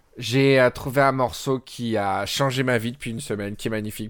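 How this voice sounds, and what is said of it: Quacky, duck-like voice. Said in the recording (French): “je parle comme ça avec une voix de canard, je sais pas pourquoi”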